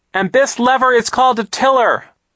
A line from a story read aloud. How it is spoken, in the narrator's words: Violet shouted